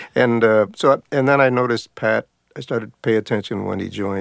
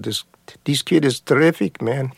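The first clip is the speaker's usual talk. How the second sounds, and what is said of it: Put-on Hungarian accent. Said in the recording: “Attila was from Hungary. That's my Hungarian accent.”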